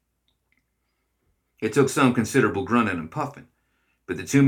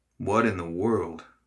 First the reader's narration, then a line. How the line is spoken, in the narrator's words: Arkwright muttered